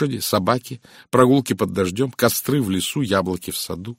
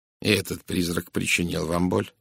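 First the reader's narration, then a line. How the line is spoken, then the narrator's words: Gentle question. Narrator (Russian): мягко спросил Пуаро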